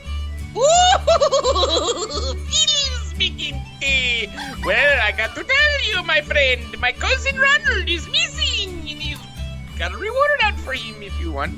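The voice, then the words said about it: Leprechaun character voice sounding Indian. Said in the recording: “when you try to do your Fiddle McGinty voice, you sound very Indian ... the leprechaun one”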